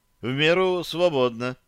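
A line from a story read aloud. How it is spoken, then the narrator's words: Sighing agreement. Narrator (Russian): вздохнув, согласился Самсон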